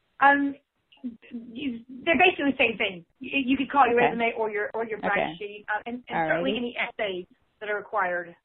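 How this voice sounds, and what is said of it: Southern Texas accent. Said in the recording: “Southern accent was coming through. ... Her southern Texas accent was coming through with brag sheet”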